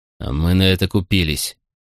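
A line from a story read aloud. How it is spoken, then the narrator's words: Horrified growl. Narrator (Russian): прорычал Макрон, чье недавнее облегчение от того, что семья генерала цела, быстро сменилось ледяным ужасом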